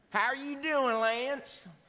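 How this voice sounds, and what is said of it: Imitated strong Texas accent. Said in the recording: “everyone down here has such a strong accent.”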